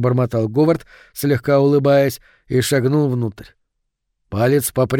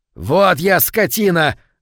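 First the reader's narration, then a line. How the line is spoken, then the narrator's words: Yelling. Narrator (Russian): завопил он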